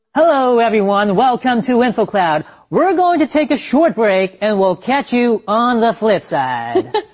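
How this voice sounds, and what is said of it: Polished radio DJ voice. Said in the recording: “That's a great radio voice”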